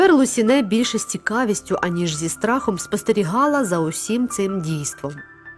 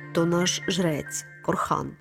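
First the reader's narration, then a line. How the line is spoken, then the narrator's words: Quiet. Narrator (Ukrainian): тихо сказав Мелітон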